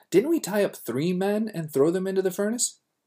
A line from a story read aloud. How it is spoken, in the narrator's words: Nebuchadnezzar in amazement exclaimed to his advisors